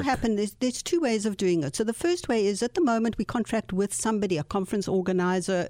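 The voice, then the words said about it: South African accent. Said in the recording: “you're from South Africa originally? ... the accent. Beautiful accent.”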